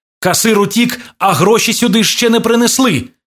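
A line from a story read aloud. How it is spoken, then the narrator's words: Shouted. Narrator (Ukrainian): крикнув Іван Кузьмі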